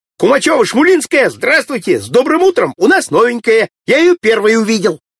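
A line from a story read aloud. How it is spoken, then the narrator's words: Shouting. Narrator (Russian): Володька закричал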